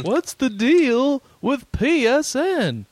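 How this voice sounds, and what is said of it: Seinfeld impression in Jeff Foxworthy voice. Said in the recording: “just do a Seinfeld impression, but with a Jeff Foxworthy voice”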